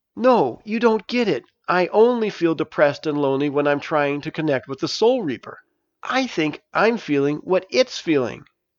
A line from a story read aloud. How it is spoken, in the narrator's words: Stavius excitedly said